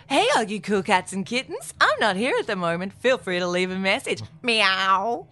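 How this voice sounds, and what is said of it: Imitates another person's voice. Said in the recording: “do that in the voice? ... It would be Kathleen's voice”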